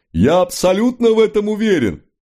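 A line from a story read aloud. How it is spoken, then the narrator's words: Loud. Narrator (Russian): промышленнику из Клермон-Феррана, который говорил так громко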